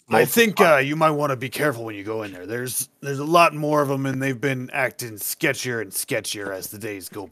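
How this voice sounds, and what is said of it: Dwarf character voice. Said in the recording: “in a dwarf voice”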